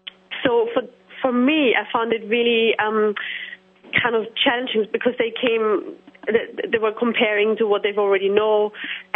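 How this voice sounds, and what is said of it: Noticeable accent. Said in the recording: “could you slow down? ... could you slow down a little bit? I'm having a hard time with your accent.”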